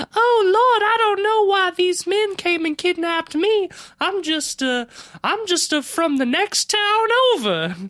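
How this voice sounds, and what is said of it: Put-on voice of a young woman. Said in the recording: “your impression isn't very good, because your accent is too good”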